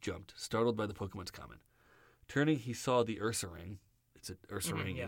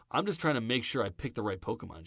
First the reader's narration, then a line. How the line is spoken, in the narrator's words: James said